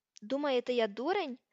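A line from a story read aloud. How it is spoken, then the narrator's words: Exclaimed. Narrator (Ukrainian): вигукнув Гаррі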